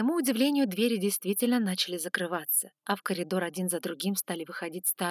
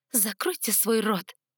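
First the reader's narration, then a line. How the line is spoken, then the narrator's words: Hissed. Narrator (Russian): прошипела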